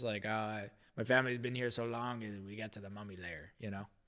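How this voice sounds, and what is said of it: Put-on Egyptian accent. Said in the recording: “An Egyptian accent? ... Yeah, that's pretty good, huh?”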